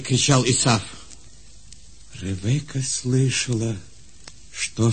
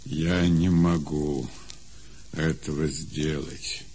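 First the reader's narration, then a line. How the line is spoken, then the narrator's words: Sad reply. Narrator (Russian): печально отвечал Исаак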